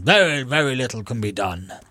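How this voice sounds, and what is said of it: Harold Macmillan impression, posh Etonian politician. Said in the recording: “Good impression. ... Is that how he sounded? ... Yeah, he did, actually. ... exactly as you'd imagine a 1950s old Etonian conservative politician to sound.”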